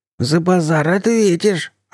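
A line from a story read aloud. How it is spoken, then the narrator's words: Hoarse menacing wheeze. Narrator (Russian): просипел второй гнилец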